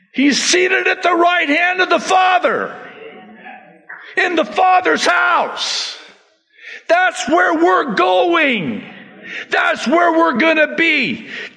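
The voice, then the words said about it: Yelling loudly. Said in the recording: “sorry I'm yelling. Everybody says, stop yelling!”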